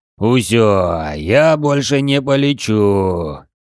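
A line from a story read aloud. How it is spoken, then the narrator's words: Giant's deep guttural groan. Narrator (Russian): утробно простонал рыжий гигант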